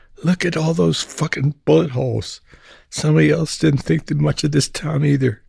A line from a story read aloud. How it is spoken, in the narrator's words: he yelled